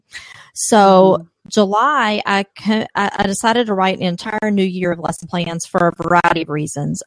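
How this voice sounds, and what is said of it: Kentucky accent. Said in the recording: “I'm from Kentucky. That's where the accent's from.”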